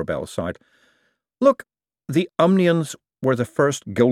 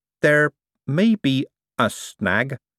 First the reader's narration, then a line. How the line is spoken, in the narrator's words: said Adora Bell slowly